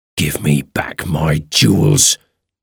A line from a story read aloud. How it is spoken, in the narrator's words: he hissed